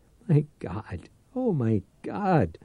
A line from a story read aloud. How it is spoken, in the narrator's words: In a terrified voice, he whined